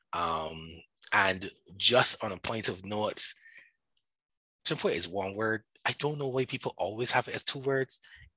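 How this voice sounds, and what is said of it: Barbadian (Bajan) accent. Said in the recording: “I am Barbadian by descent. I am Barbadian. I live in Barbados. ... So that's where my accent comes from. And that's where the Bajan is.”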